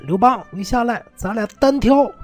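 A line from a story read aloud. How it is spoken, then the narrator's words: Shouting upward. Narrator (Chinese): 项羽冲着城上喊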